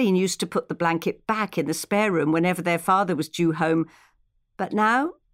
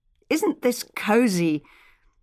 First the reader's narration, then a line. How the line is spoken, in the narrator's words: Charlotte only just remembered not to exclaim